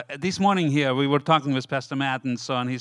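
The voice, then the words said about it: Non-native English accent. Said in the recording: “I hope you understand my accent. English is my fourth language, so I'm suffering with it”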